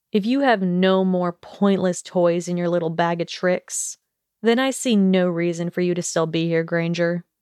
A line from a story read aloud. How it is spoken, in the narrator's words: Draco growled